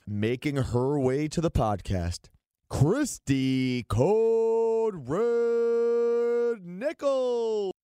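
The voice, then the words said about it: Boxing announcer voice. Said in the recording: “I'll try to do this like a boxing announcer ... Do I sound like a boxing announcer? ... You did it actually really well too.”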